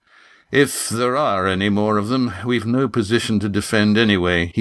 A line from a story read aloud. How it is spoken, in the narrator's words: said wearily